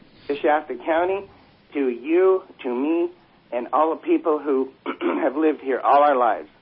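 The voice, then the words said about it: Shaking, upset voice. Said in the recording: “as you can tell, my voice is shaking because I've never been so upset about something”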